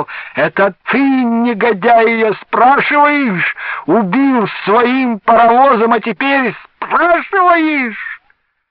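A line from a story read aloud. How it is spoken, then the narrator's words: Father shouting. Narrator (Russian): отец и на всю Аксайскую закричал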